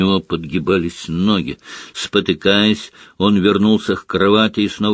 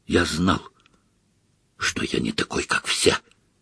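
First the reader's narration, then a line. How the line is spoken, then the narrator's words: Whisper. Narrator (Russian): прошептал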